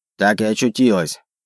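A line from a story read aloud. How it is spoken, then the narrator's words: Grumbling. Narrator (Russian): пробурчала она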